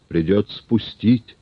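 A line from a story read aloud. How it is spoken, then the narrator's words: Plain, hunchbacked woman. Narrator (Russian): сказала горбатая Бенигна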